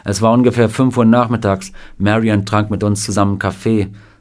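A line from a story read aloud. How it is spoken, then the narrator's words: Plain. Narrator (German): sagte Sam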